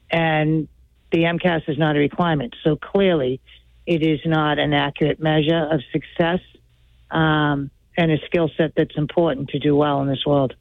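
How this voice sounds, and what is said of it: Boston accent. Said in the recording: “you've got that Boston accent. So I'm going to guess you grew up around here”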